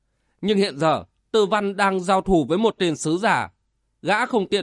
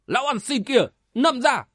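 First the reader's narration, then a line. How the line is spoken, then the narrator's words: Shouted. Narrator (Vietnamese): Tiếng quát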